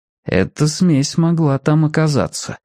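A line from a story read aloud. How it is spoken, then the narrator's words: Calm. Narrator (Russian): спокойно сказал Мэтью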